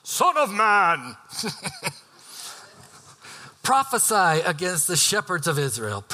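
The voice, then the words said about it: Dramatic prophet voice. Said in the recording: “do a new voice, kind of a prophet voice”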